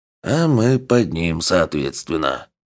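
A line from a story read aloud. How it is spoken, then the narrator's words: Sighing. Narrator (Russian): вздохнул Хоттабыч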